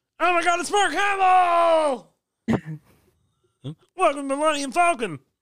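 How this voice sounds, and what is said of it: Kermit the Frog character voice. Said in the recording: “I did a Kermit voice”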